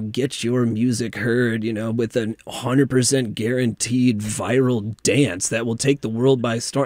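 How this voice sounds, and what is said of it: Announcer-style radio voice. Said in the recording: “You have a good radio voice for that.”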